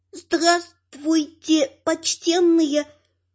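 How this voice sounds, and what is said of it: Heavy foreign accent, broken Russian. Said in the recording (Russian): “произнесенная с жутким акцентом. ... На ломаном русском”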